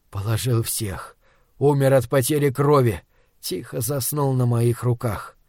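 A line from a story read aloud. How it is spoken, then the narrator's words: Barely audible, choked up. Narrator (Russian): Проталкивая ком в горле, еле слышно отвечаю я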